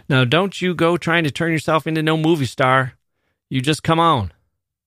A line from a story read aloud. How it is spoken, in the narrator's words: His father guessed this too, for he yelled behind her